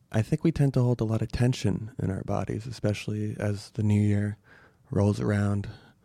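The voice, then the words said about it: Calm, cool, composed voice. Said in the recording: “my voice is a little more cool, a little more calm, a little more collected, a little more confident, a little more composed.”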